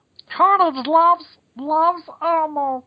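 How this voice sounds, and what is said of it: Elmo character voice impression. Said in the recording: “that's not a bad impression... You do a terrifyingly good impression of Elmo”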